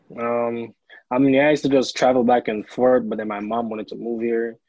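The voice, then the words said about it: Jamaican accent. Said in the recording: “You're from Jamaica, and I hear an accent, too.”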